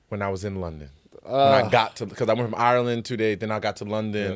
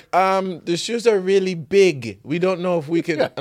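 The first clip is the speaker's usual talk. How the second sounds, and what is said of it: Put-on accent, not Irish. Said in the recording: “What is that accent? ... It was like this woman. ... It's not an Irish accent.”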